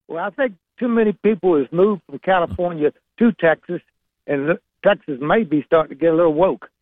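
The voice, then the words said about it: Virginia Southern accent. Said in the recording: “the Virginia Southern accent. It really is one of the classiest of our Southern accents, and you've got a great one.”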